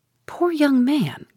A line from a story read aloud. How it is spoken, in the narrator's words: cried Mrs